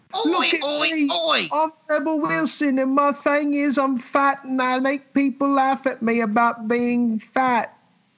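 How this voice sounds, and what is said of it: Fake accent, imitates another person's voice. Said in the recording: “We have this fake accent”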